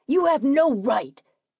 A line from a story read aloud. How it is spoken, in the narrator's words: Richard yelled